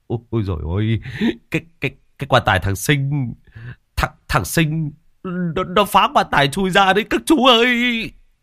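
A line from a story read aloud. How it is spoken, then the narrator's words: Panicked stammering. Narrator (Vietnamese): lắp bắp nói không thành lời, giọng hốt hoảng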